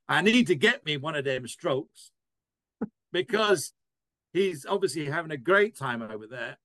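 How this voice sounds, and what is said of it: Put-on American Alabama accent. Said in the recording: “I put on my best American Alabama accent.”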